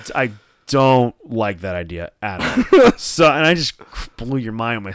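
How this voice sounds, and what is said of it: Usual voice. Nothing is said of it.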